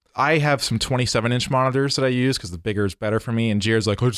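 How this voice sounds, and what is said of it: Usual voice. Nothing is said of it.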